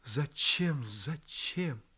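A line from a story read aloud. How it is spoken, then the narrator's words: Insistent repetition. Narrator (Russian): Она печально глядела на него и твердила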